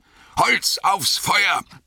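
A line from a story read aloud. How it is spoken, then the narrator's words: Bellowing. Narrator (German): brüllte Gandalf den Hobbits zu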